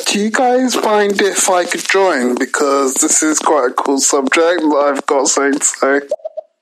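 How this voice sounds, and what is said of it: British-accented English. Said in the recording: “I believe that is a British accent. So thank you for joining us from across the pond.”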